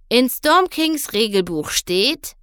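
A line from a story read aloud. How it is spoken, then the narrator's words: Read aloud. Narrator (German): las Captain Celano laut vor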